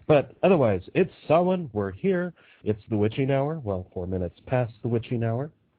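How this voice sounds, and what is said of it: Rough, sick-sounding voice. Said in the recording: “you can tell my voice is crap. I have been sick for 3 days”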